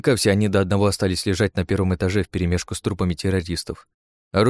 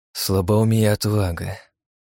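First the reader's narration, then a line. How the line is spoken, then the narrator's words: Sighing. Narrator (Russian): вздохнул я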